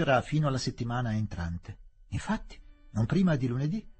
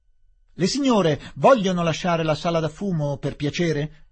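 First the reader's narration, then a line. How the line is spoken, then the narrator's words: Exclamation. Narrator (Italian): esclamò l'intendente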